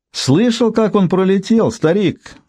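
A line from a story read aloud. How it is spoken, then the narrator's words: Yelled. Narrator (Russian): завопил Регги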